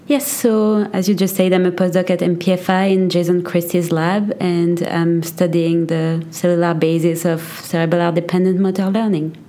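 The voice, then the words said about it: French accent in English. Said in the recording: “Accent, New Jersey? ... France.”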